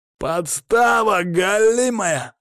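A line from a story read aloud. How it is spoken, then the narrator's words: Hoarse angry yelling, voice cracking. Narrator (Russian): орал он хрипло, голос ломался от злости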